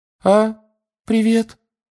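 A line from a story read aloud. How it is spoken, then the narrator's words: Unusually high voice. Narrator (Russian): сказал непривычно высоким голосом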